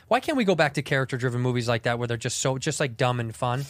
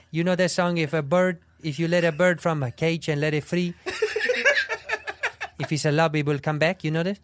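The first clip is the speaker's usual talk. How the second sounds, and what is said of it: Character voice with a bad put-on accent. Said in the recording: “play that guy in a movie... The accent's terrible... Is the accent really, really bad?... sincere great. And doughy about it”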